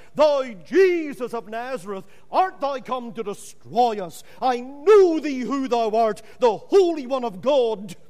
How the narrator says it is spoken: this devil in the man cried out

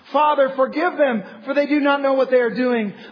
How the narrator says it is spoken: Jesus cried out from the cross

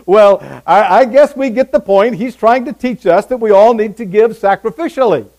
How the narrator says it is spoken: The president of the organization chuckled a little and said

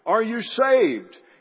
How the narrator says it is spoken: Harper shouted to him

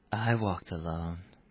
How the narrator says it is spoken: he says softly

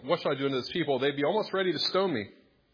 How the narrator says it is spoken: Moses cried to the Lord, saying

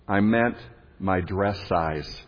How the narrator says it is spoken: mumbled by his wife

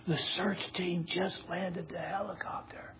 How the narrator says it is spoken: in an odd whispering voice, the child answered

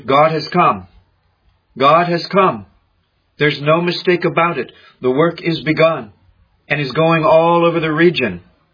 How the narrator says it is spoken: she became full of joy and exclaimed

